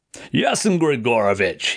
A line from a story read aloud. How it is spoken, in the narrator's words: exclaimed